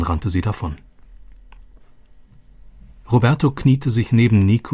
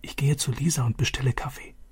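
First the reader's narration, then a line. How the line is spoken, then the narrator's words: Whisper. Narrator (German): flüsterte Vater zu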